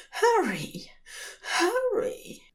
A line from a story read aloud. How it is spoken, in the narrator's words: gasps against his mouth